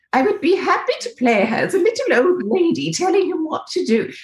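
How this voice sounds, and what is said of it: Diana's accent. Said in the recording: “Can I do her accent?”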